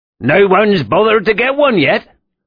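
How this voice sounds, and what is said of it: Very broad regional accent. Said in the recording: “The man's accent was so broad, Vickery had trouble understanding him.”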